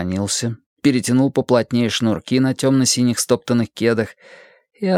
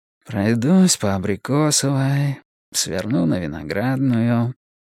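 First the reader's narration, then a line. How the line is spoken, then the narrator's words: Purring murmur. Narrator (Russian): промурлыкал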